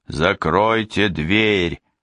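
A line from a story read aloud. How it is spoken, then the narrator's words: Roar. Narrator (Russian): взревел доктор Двали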